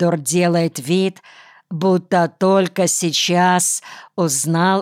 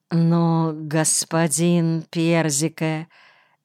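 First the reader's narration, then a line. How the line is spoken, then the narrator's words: Guilty babbling. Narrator (Russian): лепечет Боркхаузен виноватым голосом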